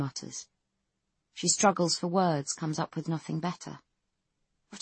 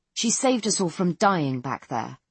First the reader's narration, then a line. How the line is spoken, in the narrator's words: Carlyle snaps